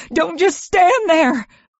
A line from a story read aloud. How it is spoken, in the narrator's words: Ma begged